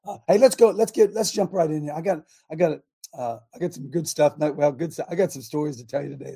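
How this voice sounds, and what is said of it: Hoarse, raspy voice. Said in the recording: “I got a little horse hanging in there, trying to cough him up. It's probably from yelling at y'all last couple days ... I'm especially raspy this morning”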